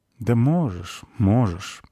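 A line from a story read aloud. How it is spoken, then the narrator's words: Sighing. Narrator (Russian): вздохнула спичка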